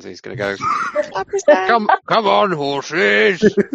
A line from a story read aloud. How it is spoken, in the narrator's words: Your bellowing laugh